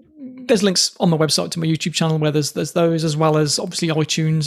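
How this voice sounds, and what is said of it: English Midlands accent. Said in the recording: “my sort of Midlands accent”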